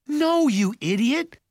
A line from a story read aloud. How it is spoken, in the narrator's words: Mallory shouted